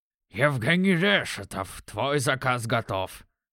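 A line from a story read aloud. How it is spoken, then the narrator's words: Low nasal voice. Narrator (Russian): Прогундосил он низким голосом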